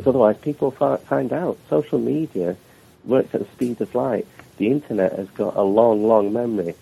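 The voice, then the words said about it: British English accent. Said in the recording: “I live in the UK, and my accents are very clear.”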